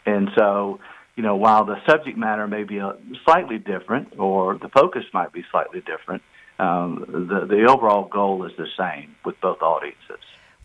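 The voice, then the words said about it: Birmingham, Alabama Southern accent. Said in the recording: “He's from Birmingham, Alabama, which is so great because it explains this accent. Because if you were from New York and you talked like that, we'd think there was something wrong with him.”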